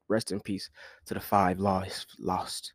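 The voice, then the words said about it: Put-on British accent. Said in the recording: “I don't know why I did a British accent”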